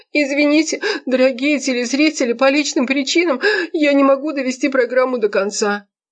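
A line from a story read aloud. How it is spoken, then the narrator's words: Holding back sobs, sobbing. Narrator (Russian): Дима читает новости, сдерживая рыдания, а потом всхлипывает и говорит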